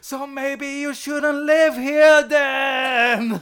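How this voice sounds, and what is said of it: Imitates another person's voice. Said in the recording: “That wasn't the worst Pierce Brosnan impression.”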